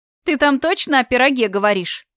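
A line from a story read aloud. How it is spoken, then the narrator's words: Chuckle. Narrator (Russian): хохотнула Алиена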